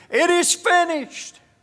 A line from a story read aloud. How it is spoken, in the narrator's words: Before our Lord and Savior took his last breath, he shouted